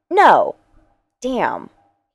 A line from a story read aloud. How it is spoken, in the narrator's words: he muttered